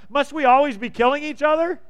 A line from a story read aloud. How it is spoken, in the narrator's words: Abner shouted down to Joab